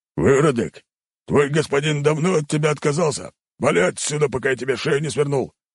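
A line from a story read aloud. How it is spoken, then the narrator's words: Bouncer's cold bark. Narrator (Russian): холодно рявкнул вышибала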